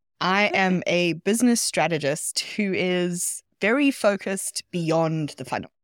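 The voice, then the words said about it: South African accent. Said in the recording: “The accent that you're hearing is South African”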